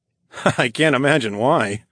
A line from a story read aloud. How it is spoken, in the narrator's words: laughed